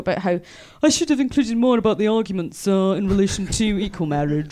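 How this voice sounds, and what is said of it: Generic posh BBC Radio 4 voice. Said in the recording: “I didn't know you could do that voice. ... That's my generic Radio 4 voice.”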